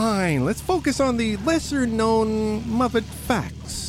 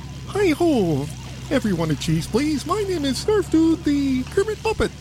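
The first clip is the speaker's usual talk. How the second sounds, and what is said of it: Kermit the Frog voice impression. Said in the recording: “Should I do my Kermit voice? ... It's not that great, but it's not that bad.”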